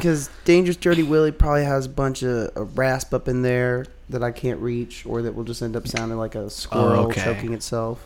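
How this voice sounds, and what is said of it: Congested, slightly messed-up voice. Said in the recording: “My voice is a little messed up from having like a sinus infection”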